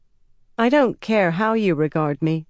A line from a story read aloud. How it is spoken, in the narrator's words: Egwene said evenly